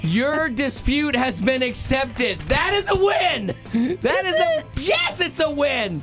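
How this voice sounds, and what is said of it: Exuberant, excited voice. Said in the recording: “hear the exuberance in my voice.”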